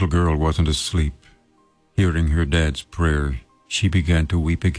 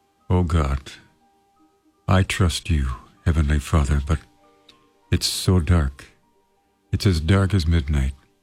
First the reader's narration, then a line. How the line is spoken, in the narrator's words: Thinking his daughter was asleep, the father said brokenly